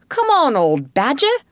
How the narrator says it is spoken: shouted the rat

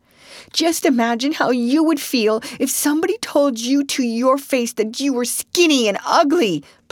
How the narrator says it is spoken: pleaded Anne tearfully

